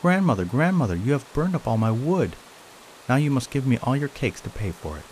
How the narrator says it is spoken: the monkey cried out

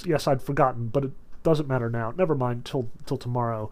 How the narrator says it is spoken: he muttered to himself

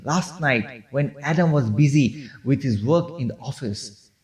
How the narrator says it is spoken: Harry exclaimed

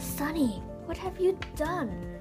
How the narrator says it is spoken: Anna whispered

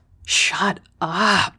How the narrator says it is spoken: groaned, my lungs expanding and contracting with each stride

